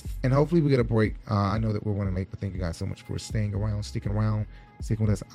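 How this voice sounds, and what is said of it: Hoarse, dry, strained voice. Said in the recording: “I've lost my voice. My voice is dry. My ... throat. He needs some water.”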